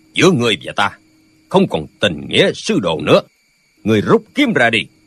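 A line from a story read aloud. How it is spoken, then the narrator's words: Shouting. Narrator (Vietnamese): lão quát lên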